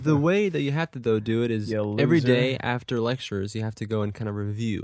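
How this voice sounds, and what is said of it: Nasal-sounding voice. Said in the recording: “I sound kind of nasally, which is weird.”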